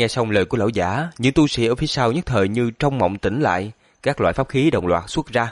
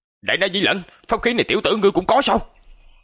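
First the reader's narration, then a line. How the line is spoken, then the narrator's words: Old man's angry shout. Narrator (Vietnamese): Lão giả liền giận dữ hét lớn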